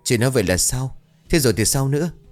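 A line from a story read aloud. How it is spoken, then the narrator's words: Trembling. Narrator (Vietnamese): Người đàn bà miệng run rẩy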